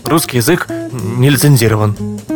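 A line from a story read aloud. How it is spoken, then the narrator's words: Devil's grumble. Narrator (Russian): буркнул черт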